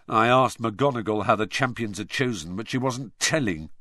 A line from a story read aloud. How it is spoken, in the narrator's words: said George bitterly